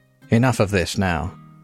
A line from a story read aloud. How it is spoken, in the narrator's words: the mason said